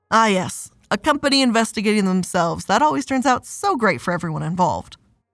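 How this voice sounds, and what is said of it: Sarcastic delivery. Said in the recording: “That was sarcasm, by the way, in case you couldn't tell.”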